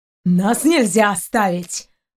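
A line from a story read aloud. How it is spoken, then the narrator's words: Growling. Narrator (Russian): Продолжал рычать капитан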